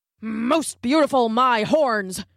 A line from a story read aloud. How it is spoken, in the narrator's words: grunted a wildebeest